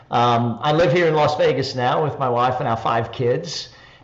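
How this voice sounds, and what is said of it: Australian accent. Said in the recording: “people will be able to tell by the accent, I'm Australian”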